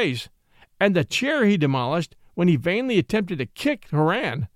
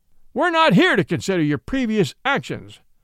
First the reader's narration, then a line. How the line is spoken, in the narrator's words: bellowed Judge Whitberg